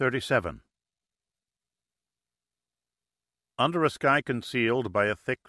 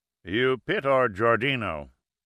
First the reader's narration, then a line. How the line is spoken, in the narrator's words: asked in a rumbling voice